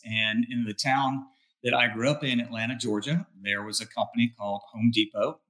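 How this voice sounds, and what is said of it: Southern US accent. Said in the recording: “you can probably tell with this accent, I come from the southern part of the United States”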